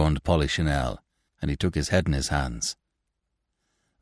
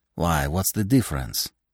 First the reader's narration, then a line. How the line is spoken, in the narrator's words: asked Leandre